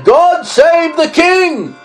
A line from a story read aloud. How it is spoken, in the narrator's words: all the people shouted and said